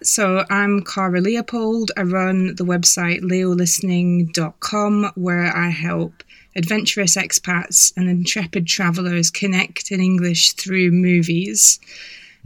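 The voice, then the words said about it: Scottish accent. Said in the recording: “I'm from Scotland, so this is why my accent sounds a bit Scottish”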